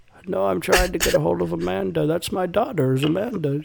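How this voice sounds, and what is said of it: Old man voice. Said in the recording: “Do the old man voice.”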